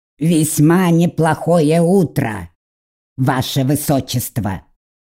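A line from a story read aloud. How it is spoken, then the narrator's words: Raven snorting. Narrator (Russian): хмыкнул ворон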